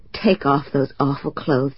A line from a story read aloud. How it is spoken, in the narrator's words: I said hoarsely